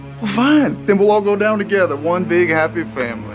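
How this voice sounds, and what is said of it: Inconsistent Brooklyn-meets-Georgia Bayou accent. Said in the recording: “What is this accent? ... It's different in every episode. ... it has that like Brooklyn meets Georgia Bayou thing happening.”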